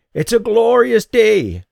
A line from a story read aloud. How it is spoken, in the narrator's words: the voice croaked